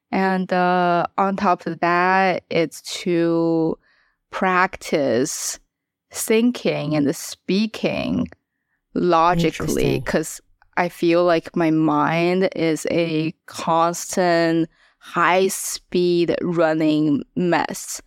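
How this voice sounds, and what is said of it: Non-native English accent. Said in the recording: “how I speak English, my accent”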